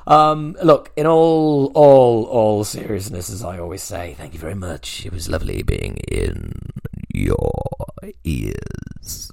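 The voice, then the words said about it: Radio DJ voice. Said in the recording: “it's DJ voice. ... This is the kind of shit I can do.”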